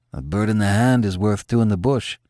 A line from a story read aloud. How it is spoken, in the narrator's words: Kianzo muttered